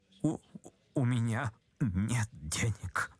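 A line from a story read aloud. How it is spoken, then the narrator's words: Mutter. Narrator (Russian): пробормотал, наконец, Ипполит Матвеевич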